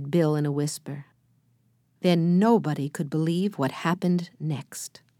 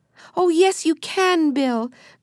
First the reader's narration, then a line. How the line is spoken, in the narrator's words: cried Benny